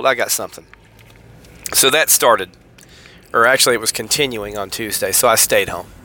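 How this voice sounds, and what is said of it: Congested, sick-sounding voice. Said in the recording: “as you can tell, I have a cold.”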